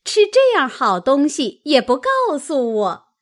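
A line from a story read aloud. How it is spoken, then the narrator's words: Laughing. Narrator (Chinese): 凤姐笑道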